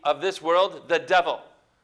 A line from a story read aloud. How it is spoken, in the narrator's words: he says